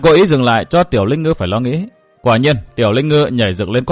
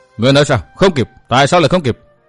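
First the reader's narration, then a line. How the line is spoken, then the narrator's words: Wide-eyed shout. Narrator (Vietnamese): Tiểu Linh Ngư tròn tròn đôi mắt quát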